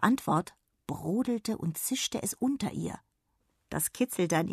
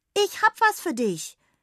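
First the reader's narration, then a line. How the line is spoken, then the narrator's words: Calling out. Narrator (German): rief Jonna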